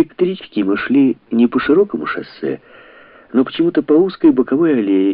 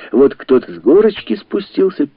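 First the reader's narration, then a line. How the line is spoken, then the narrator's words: Loud, mock-heartfelt singing. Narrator (Russian): пели как бы на полном серьезе, в голос, с надрывом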